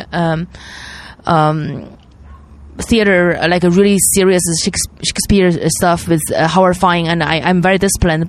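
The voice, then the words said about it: Noticeable foreign accent. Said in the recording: “My acting career, because of my accent, I can't. ... my accent is not going to help.”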